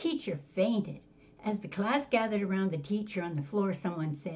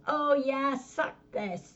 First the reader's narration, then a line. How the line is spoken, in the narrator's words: Now furious, another student yells